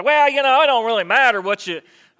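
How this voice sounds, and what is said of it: Put-on Southern accent. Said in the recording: “Why do I go to a southern accent?”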